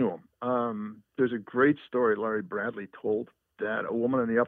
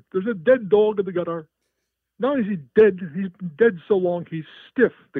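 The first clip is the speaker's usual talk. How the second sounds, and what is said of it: Put-on New York accent. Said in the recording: “I'll try to do the accent.”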